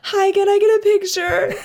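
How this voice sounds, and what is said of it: Weird high-pitched voice. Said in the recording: “weird high voice”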